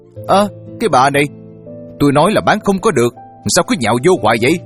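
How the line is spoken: Furious woman's shout. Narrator (Vietnamese): bà nổ khí xung thiên hét

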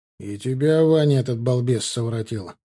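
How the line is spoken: Grumbling. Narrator (Russian): проворчал Гончаров

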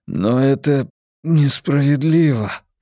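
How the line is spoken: Breathless, gasping. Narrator (Russian): выдавил, жадно втягивая воздух

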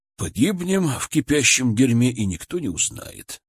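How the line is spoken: Sighing. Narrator (Russian): вздохнул Матвей

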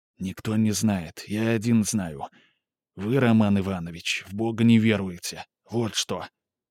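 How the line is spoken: Slow whisper. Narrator (Russian): Сказал неторопливо, тем же шепотом

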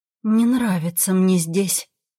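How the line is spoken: Grumbling mutter. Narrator (Russian): буркнула я

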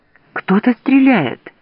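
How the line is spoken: Frightened cry. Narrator (Russian): в испуге вскрикнула

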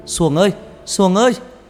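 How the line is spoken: Loud shout. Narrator (Vietnamese): Thằng Bảy hét lớn

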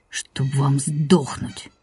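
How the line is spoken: Angry. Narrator (Russian): зло сказал Борька

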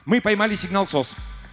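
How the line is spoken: Excited announcement. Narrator (Russian): взволнованно огласил он

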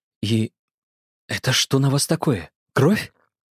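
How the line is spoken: Quiet, near whisper. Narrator (Russian): Тихо, почти шепотом добавила

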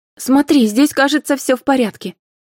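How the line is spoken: Cheerful. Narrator (Russian): весело произнесла Карина

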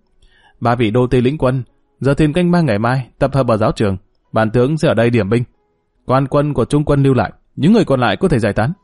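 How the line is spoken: Loud commanding voice. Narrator (Vietnamese): Dương Lăng lớn tiếng

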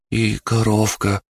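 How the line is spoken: Timid child. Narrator (Russian): робко сказал мальчик

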